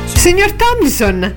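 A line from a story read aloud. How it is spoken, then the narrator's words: Exclaiming. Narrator (Italian): esclamò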